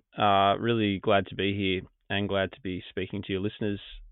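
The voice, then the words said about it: Australian accent. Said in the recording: “Live in Queensland in Australia. You can probably tell by my accent that I'm not from where you're from.”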